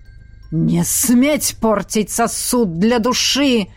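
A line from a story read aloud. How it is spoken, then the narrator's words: Terrible demonic roar. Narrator (Russian): Страшно взревел демон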